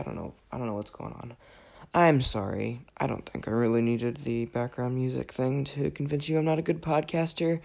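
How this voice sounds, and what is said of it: Raspy, slightly worn-out voice. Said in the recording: “I am a little under the weather, actually, in case you couldn't tell. ... My voice is a little raspy, a little worse for wear today.”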